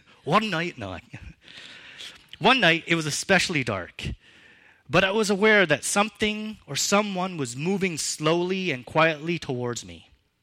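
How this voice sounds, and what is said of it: Put-on Scottish accent. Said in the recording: “I feel like I should say this in a Scottish accent.”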